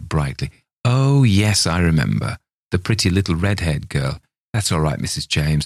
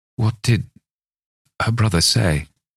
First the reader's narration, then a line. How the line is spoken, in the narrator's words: I asked faintly